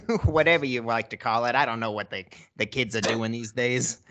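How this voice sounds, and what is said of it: Put-on Brooklyn accent, funny voice. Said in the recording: “That was a funny voice, man. ... If you don't have a Brooklyn accent”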